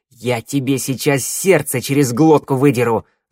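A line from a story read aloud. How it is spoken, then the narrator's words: Growling. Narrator (Russian): рыкнула Дика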